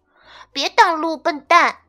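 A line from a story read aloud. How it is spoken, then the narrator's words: Shouting. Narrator (Chinese): 小主人马克嚷道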